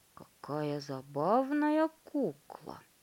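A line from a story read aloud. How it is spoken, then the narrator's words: Muttering. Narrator (Russian): бормотал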